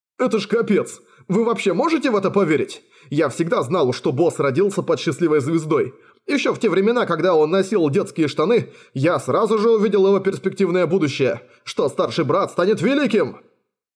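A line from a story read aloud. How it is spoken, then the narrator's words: Spluttering shout. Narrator (Russian): Брызгая слюнями во все стороны, кричал Янь Сяосу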